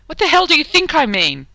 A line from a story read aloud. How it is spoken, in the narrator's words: snapped